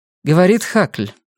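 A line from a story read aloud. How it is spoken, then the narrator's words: Dry, emotion suppressed. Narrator (Russian): сухо проговорила она, стараясь ничем не выдавать своих чувств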